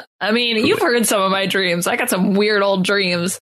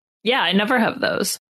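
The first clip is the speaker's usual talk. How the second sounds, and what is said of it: Sarcastic delivery. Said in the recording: “I said that sarcastically.”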